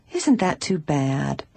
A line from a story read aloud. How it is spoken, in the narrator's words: Bess murmured in disappointment